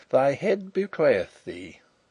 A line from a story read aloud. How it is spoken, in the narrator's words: he chuckled